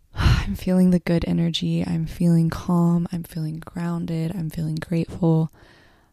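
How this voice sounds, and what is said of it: Soft, calm speaking voice. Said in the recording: “You guys can probably tell it in my voice. I always speak pretty softly, but I think you guys can really tell today.”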